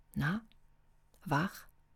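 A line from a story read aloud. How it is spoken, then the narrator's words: Quiet question. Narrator (German): fragte sie leise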